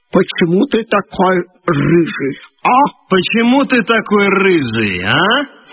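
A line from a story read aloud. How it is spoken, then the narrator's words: Menacing older boy. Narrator (Russian): старший, этакий атаман ... грозно спрашивает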